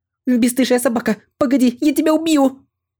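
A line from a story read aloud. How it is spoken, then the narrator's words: Furious shout while running. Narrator (Russian): бежала и бешено кричала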